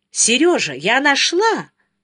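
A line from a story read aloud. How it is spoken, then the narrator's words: Joyful. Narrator (Russian): начала была радостно Соня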